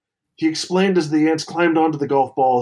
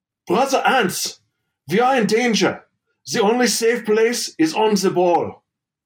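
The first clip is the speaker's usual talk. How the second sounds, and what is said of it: Pennsylvania Dutch accent. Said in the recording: “I don't know if I should do the accent right now, but I'm going to do it. ... Pennsylvania Dutch joke”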